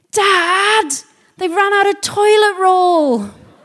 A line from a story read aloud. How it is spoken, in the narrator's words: In the distance, he heard a little voice shouting